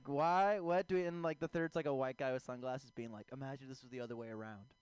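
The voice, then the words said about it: Impression of a white dude. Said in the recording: “That's just my impression of white dudes.”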